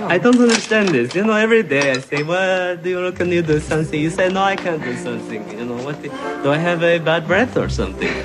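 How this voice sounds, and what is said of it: Horrible put-on accent. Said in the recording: “It's a bad accent. ... It's a horrible accent”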